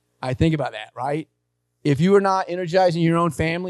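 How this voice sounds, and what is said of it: Usual voice. Nothing is said of it.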